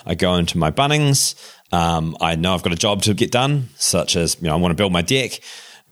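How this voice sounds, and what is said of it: New Zealand accent. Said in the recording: “It's a Kiwi accent.”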